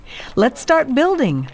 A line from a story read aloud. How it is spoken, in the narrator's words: cried the people